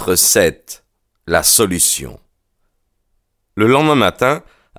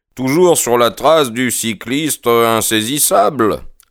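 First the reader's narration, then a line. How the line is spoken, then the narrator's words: Cheerful question. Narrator (French): leur demanda gaiement Holmes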